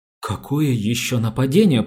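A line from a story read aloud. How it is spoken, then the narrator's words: Stammering. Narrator (Russian): проговорила она, запинаясь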